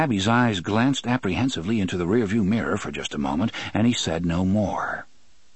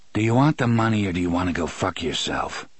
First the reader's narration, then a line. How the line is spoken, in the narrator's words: Roland asked in a cold, dead voice